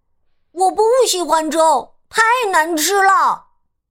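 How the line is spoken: Shouting in protest. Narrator (Chinese): 他叫起来

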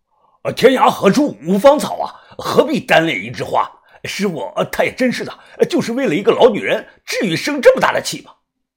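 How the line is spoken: Angry. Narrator (Chinese): 李宝山怒声的说道

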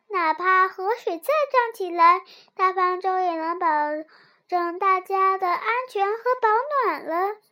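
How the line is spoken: Admiring. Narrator (Chinese): 柳儿赞叹道

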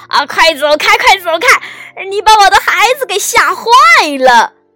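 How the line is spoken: Angry loud voice. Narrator (Chinese): 鸭妈妈可气坏了，大声地说

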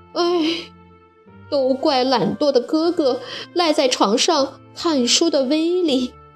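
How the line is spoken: Loud wailing crying. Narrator (Chinese): 斯台哇哇大哭着

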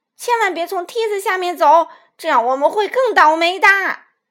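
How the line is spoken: Child's loud shout. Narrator (Chinese): 小胖墩高声喊道

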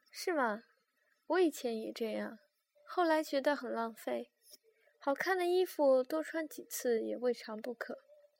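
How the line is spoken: Calm, light smile. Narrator (Chinese): 风平一笑，依旧淡淡的

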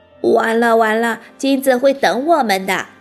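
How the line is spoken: Quiet aside. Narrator (Chinese): 马小跳一边回答秦老师，一边又小声的对唐飞说

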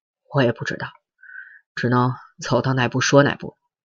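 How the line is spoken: Sighing. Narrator (Chinese): 周奉天 叹口气说

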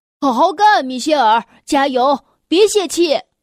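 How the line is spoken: Loud encouraging shout. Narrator (Chinese): 他对我大喊

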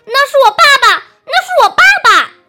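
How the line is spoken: Shocked shrill cry. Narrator (Chinese): 匹诺曹…顿时大吃一惊，他尖声高叫

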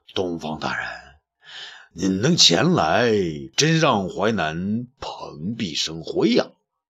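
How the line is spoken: Slow, leisurely. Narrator (Chinese): 淮南王 慢慢说道

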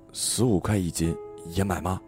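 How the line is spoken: Hushed, secretive. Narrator (Chinese): 像是地下党那样压低嗓音问外公

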